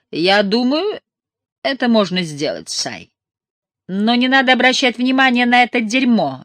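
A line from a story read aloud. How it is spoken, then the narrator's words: Barked. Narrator (Russian): рявкнул Ортис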